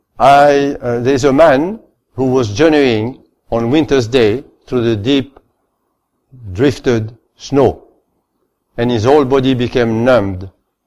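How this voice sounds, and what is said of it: Speaker's own foreign accent. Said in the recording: “I hope you don't mind my accent”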